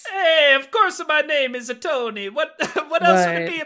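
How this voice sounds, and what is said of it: Deliberately bad put-on Italian accent. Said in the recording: “I told you I was going to do a horrible Italian accent all over this episode.”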